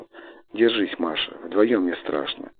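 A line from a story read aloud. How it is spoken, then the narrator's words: Quiet, tender brother. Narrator (Russian): Брат тихо сказал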